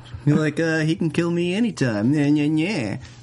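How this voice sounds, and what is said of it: Imitates another person's voice. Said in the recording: “That's my Yael impression.”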